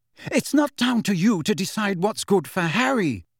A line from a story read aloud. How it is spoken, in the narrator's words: said Mrs